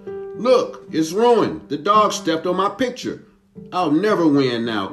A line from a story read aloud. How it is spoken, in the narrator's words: cried Flo